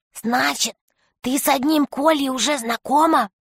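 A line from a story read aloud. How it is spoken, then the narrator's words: Whisper in ear. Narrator (Russian): Юлька прошептала на ухо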